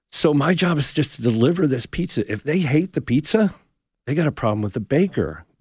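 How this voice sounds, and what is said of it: New Jersey accent. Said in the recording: “I grew up in New Jersey. Maybe you could tell with the accent.”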